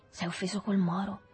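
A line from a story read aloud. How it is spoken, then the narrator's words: Low voice. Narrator (Italian): gli disse sottovoce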